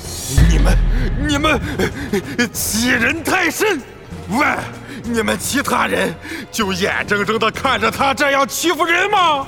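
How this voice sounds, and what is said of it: Angry shouting. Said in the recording (Chinese): “别喊了”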